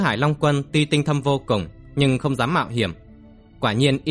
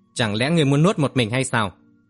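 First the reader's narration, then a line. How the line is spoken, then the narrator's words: Cold snort. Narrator (Vietnamese): Tứ Hải Long Quân lạnh lùng hừ lên một tiếng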